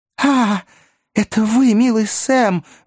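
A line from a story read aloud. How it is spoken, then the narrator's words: Glad exclamation. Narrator (Russian): воскликнул мистер Пиквик, явно обрадовавшись при виде своего скромного слуги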